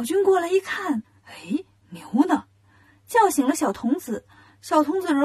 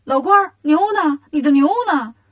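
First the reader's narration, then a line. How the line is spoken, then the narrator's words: Clamoring, shouting. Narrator (Chinese): 悟空就嚷嚷开了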